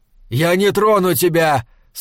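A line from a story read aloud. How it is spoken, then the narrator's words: Shouting again. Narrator (Russian): снова крикнул он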